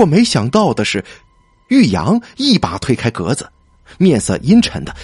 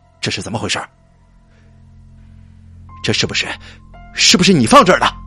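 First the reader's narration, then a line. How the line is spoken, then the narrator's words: Angry. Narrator (Chinese): 玉阳愤怒的说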